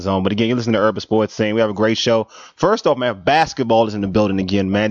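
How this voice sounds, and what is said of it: Voice slightly affected by a cold. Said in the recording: “You can hear my sexy voice. I have a little cold, as you can tell. Just a slight cold.”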